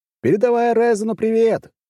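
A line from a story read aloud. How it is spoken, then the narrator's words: Mocking shout. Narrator (Russian): крикнул ему с усмешкой вслед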